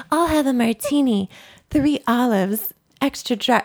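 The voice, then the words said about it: Imitates another person's voice. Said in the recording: “You do a really good Renee Zellweger impression”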